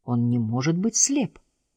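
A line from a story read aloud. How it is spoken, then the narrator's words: Muttered. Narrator (Russian): пробормотал доктор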